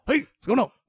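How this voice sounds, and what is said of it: Imitation of Michael Keaton's Beetlejuice. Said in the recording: “That's Charlize Theron doing. Charlize Theron from Monster. ... Doing Michael Keaton as Beetlejuice? ... She won an Oscar doing an imitation of Beetlejuice.”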